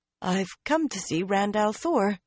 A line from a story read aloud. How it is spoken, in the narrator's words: Min said, a trifle unsteadily